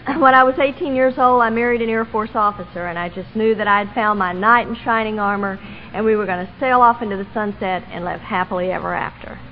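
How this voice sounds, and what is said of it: Southern Texas accent. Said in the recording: “born and raised in Texas. I am a Southern girl, in case you missed the accent”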